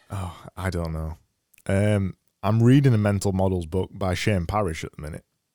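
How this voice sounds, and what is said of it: Hoarse, failing voice. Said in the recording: “I'm losing my voice”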